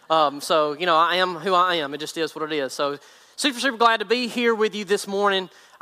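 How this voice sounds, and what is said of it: Thick country accent. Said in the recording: “country's accent gets thicker and worse when I teach”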